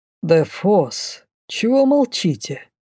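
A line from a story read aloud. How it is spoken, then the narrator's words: Suspicious king asking. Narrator (Russian): С подозрением осведомился король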